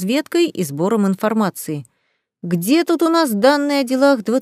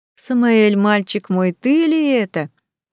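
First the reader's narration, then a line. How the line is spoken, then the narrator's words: Joyful cooing ghost. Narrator (Russian): радостно проворковало привидение с щупальцами осьминога вместо ног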